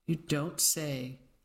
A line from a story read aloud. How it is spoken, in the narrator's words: Aunt Edna said dryly